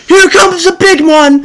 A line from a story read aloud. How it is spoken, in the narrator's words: Panamark yells over the storm